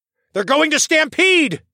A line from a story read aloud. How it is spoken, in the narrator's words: yelled